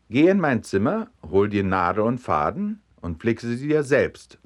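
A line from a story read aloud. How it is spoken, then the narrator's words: Plain. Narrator (German): sagte die Mutter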